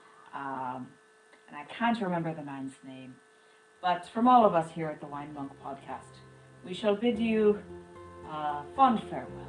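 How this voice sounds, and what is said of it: Imitates a radio host's voice. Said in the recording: “I am doing my impersonation of the man who hosts Celtic Sojourn on the weekends here in New England”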